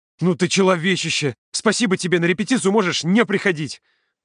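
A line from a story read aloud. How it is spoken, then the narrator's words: Shout over shoulder. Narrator (Russian): Володя крикнул через плечо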